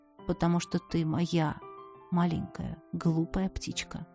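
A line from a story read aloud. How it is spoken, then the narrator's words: Quiet. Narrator (Russian): Иден тихо сказал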